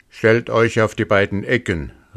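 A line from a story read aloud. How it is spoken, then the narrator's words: Wolf calling out. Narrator (German): rief der Wolf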